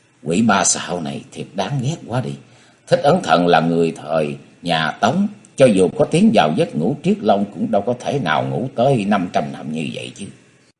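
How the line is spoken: Soft, sulky sigh. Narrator (Vietnamese): Diệp Linh Tô khe khẽ thở ra giọng giận dỗi

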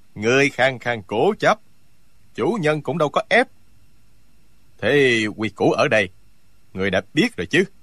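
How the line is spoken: Cold male voice. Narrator (Vietnamese): Giọng một hán tử lạnh lùng nói

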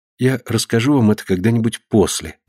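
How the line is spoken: Plain. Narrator (Russian): ответила Консуэло

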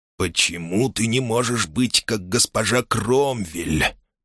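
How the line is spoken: Whisper. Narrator (Russian): прошептал Хэксби

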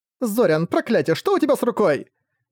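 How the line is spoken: Horrified exclamation. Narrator (Russian): В ужасе воскликнула Тайвин

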